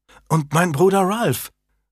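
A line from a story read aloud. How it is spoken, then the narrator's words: Delighted exclamation. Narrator (German): rief Janet erfreut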